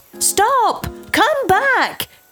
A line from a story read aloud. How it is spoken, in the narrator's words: shouts